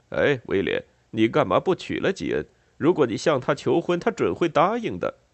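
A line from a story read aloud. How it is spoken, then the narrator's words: Elegant, joking. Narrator (Chinese): 乔治时常拿出优雅的态度和他开玩笑说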